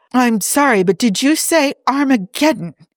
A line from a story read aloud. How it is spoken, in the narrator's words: He blurted out